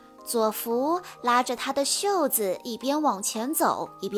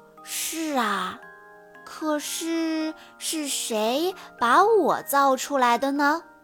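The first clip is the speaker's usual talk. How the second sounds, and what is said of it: Soft, quiet voice. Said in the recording (Chinese): “小声回答”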